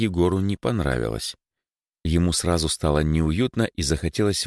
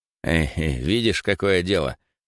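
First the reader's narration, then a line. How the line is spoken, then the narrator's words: Wry snort. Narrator (Russian): хмыкнул Андрей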